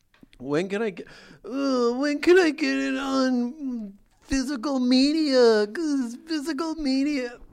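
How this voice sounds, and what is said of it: Whiny caricature voice. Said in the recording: “What is that voice? ... Just like people who are whining ... caricatures”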